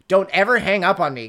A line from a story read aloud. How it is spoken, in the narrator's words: Gideon snapped